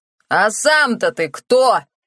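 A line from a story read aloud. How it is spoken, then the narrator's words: Shouting. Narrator (Russian): прокричал Харрас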